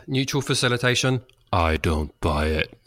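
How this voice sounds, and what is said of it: Put-on podcast announcer voice. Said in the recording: “I used my podcast voice.”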